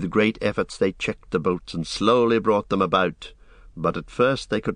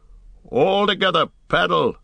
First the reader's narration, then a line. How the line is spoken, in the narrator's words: shouted Boromir